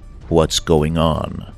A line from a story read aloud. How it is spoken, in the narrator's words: I asked